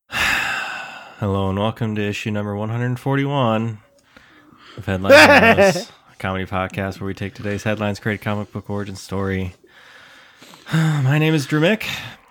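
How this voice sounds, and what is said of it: Sad-sounding voice. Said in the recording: “why you sound so sad?”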